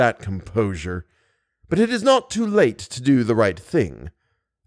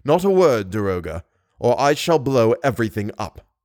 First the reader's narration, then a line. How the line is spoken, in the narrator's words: he said coldly